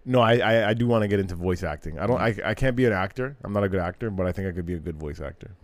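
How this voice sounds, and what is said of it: Usual voice. Nothing is said of it.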